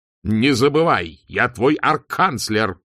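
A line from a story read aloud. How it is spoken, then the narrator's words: Barking. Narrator (Russian): рявкнул он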